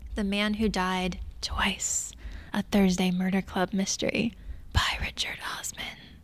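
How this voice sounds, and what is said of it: Dramatic movie trailer voice. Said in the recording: “That was my movie trailer voice.”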